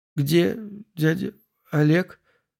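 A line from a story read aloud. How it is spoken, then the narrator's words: Forced out, strained. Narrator (Russian): выдавила Марина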